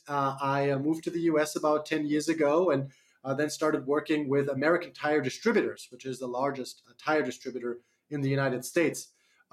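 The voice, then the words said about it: Slight German accent. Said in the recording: “I do have a slight accent. I'm from Germany originally”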